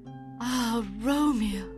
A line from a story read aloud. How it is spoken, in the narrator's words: sighed